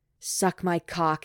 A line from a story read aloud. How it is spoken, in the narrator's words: growls